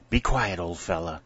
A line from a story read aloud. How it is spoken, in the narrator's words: whispered